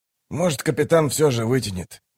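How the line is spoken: Grumbling mutter. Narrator (Russian): буркнул он

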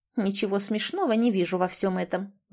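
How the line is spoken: Grumbling. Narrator (Russian): ворчала

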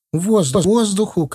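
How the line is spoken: Shouting. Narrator (Russian): кричала Маша

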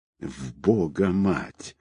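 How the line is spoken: Angry whisper. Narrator (Russian): зло прошептал Тихий

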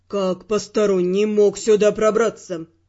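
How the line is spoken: Menacing question. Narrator (Russian): грозно спросил

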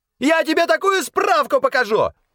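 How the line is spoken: Squeaky yelling. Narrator (Russian): пискляво вопил один из чиновников

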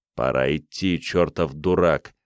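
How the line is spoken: Growl. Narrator (Russian): прорычал

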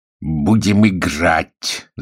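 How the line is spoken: Spiteful man's voice. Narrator (Russian): злобно сказал человек в купеческой поддевке

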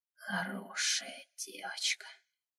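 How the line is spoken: Halting whisper. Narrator (Russian): услышала я сбивчивый шепот

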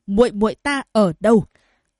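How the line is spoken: Roaring. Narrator (Vietnamese): Diệp Huyền gầm thét

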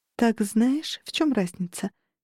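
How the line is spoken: Gentle smiling reminder. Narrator (Russian): Мягко улыбнувшись, напомнила Анель

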